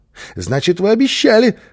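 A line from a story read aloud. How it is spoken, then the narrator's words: Joyful child. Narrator (Russian): радостно подхватил малыш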